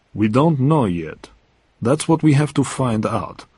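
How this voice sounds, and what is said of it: Gentle voice. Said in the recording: “said Goldfinger in a gentle voice.”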